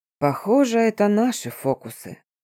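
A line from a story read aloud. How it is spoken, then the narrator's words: Languid voice. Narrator (Russian): томным голосом произнес он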